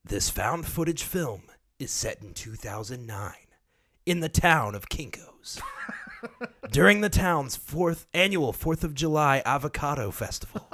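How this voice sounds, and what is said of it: Movie trailer announcer voice. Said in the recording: “give us your best announcer voice ... I'm going to do it like movie trailer voice.”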